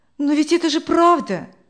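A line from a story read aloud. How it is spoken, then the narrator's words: Fervent exclamation. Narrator (Russian): с жаром воскликнула Людмила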